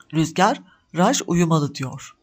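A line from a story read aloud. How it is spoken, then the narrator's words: Plain. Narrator (Turkish): dedi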